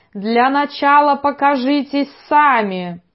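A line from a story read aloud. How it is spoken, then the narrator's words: Strained, loud yell. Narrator (Russian): Я напряг глотку, завопил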